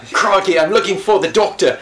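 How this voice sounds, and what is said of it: Fake Australian accent. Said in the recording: “in a very, very fake Aussie accent”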